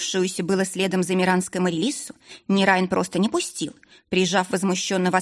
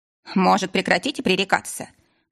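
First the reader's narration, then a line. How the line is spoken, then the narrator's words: Irritated suggestion. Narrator (Russian): раздраженно предложил Ридан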